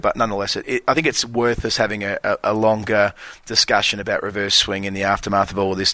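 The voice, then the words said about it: Australian accent. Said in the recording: “I'm very mindful of being speaking with an Australian accent”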